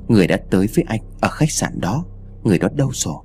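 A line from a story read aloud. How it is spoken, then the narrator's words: Pitiful stammering. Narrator (Vietnamese): anh lắp bắp đến tội nghiệp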